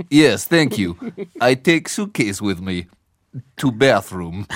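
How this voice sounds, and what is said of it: Weak put-on Soviet-style accent. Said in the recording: “Quality accent. ... that was a bit of a swing and a miss.”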